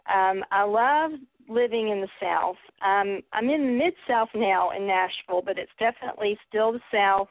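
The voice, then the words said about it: Southern American accent. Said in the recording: “I'm definitely a Southern Belle. You can tell from my accent.”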